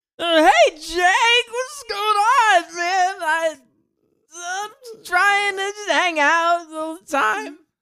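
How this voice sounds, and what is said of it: Imitates another person's voice. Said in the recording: “give me something to say and I can do a good Bobcat ... That's pretty like good ... It's like Bobcat Goldthwait is guest starring on our podcast”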